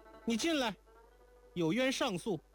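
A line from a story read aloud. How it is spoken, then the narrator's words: Called out. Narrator (Chinese): 如莲才叫道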